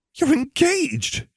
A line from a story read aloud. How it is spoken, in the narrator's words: she gasped